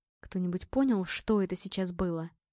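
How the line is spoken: Shaken mumbling. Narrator (Russian): пробормотал Илья, от увиденного его мелко потряхивало

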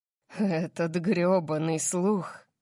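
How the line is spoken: Growl without anger. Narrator (Russian): прорычал он, но в его тоне не было никакого гнева

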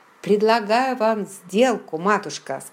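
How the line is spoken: Plain. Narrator (Russian): сказал он

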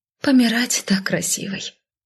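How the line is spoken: Cheerless mutter. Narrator (Russian): невесело пробормотала я

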